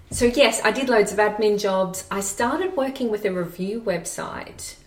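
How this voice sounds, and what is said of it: Australian accent. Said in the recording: “as you can tell by my accent, I'm not from Edinburgh ... I still haven't lost my accent ... I still sound like Kath and Kim.”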